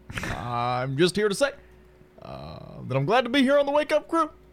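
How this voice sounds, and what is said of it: Barack Obama impression. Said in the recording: “Barack Obama, the 44th United States president ... Now, I do have this one.”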